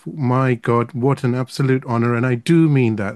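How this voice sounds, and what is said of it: Excited voice. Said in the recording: “tell from my voice and the harmonics of my voice how excited I really am”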